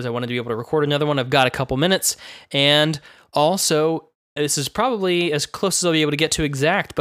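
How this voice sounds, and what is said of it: Slightly rough voice from illness. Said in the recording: “My voice is going to be a little bit messed up. I'm just getting over having the crud for several days”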